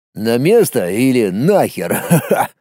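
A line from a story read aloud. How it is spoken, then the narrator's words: Friend's short laugh. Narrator (Russian): Хохотнул друг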